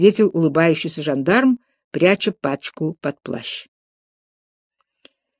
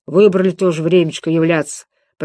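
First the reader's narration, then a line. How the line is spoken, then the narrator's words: Grumbled. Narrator (Russian): пробурчал он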